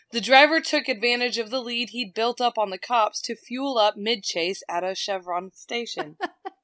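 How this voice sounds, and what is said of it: Twangy accent. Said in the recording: “I'm going to put my twang on it, okay? I can't help it.”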